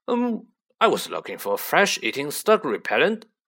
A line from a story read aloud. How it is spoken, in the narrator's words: growled Hagrid